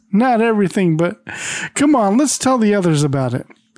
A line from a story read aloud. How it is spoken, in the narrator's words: The skipper, he laughs in relief and says